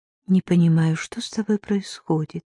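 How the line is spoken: Quiet woman's voice. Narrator (Russian): тихонько проговорила

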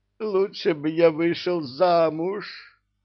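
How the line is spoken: Moaning. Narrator (Russian): простонал Иблис

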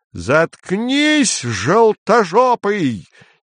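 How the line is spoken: Sudden wild scream. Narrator (Russian): дико завопил вдруг Цвирик

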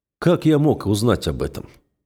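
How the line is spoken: Dry question. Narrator (Russian): сухо спрашиваю я

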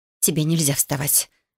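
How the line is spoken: Girl muttering. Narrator (Russian): забормотала девушка

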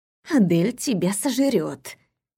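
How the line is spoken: Whisper. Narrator (Russian): шепнула она

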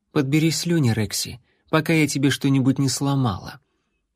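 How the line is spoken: Quiet. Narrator (Russian): также тихо добавила

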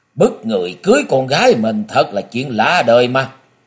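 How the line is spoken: Cold, distant echoing voice. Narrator (Vietnamese): một giọng nói lạnh lùng vọng lại

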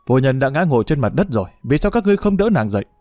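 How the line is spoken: Angry. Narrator (Vietnamese): Thẩm Quát lập tức giận dữ nói

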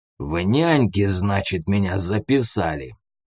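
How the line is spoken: Furious near-hiss. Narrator (Russian): Чуть ли не шипел толстяк от ярости

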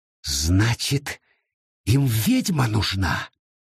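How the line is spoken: Hissing. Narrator (Russian): прошипела она

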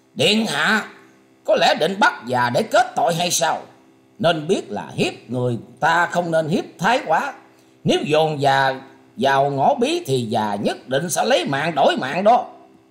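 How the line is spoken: Harsh shout. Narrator (Vietnamese): Diệp Siêu Trần gằn giọng quát lên rằng

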